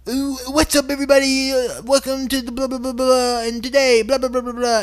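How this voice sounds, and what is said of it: Fake, put-on host voice. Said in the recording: “fake voice.”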